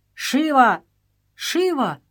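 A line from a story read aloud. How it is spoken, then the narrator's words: Shouting. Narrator (Russian): кричал Сагор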